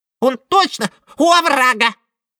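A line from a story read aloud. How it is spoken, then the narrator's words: Squeaking mouse sisters. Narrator (Russian): пропищали мышиные сестрицы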